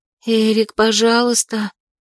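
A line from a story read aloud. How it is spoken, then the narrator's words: Uncertain pleading whisper. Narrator (Russian): Неуверенно шепчу в жалкой попытке его остановить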